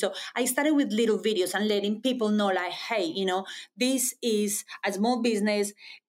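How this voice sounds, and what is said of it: Speaks with an accent. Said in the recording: “as you can imagine, I have an accent.”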